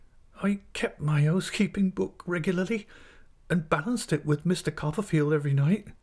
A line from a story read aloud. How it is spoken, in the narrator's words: cried my mother in another burst of distress, and breaking down again